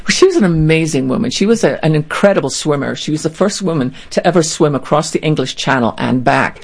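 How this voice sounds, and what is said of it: Speaks with a distinctive accent. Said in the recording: “you have the great accent”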